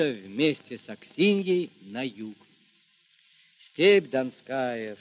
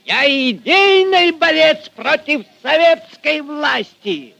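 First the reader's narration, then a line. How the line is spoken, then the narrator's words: Shouting in anger. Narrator (Russian): Багровея от гнева кричал Фомин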